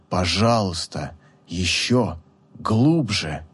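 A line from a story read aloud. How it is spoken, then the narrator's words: Breathless exhale. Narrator (Russian): Гелиор выдохнул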